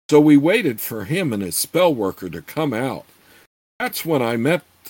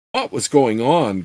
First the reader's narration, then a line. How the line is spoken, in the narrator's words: Gord asked impatiently